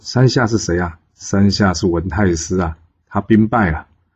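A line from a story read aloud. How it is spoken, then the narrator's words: Laughing. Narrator (Chinese): 姜子牙跟武王呢，在那边笑着说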